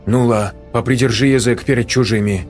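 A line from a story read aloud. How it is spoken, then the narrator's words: Woman speaking sternly. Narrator (Russian): строго сказала женщина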